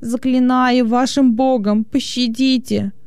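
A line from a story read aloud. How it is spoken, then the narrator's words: Moaning plea. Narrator (Russian): стонал он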